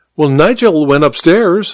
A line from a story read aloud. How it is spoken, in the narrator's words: said the vicar